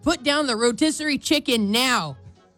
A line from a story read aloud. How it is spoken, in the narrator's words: a lady in Target was screaming